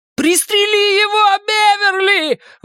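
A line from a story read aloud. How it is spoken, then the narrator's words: Shouting again. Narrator (Russian): вновь крикнул Ричи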